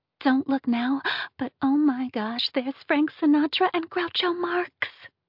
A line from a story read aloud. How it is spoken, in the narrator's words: whispered Callahan